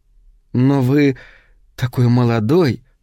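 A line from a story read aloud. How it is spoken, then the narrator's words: Strained, forced out. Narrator (Russian): выдавила она наконец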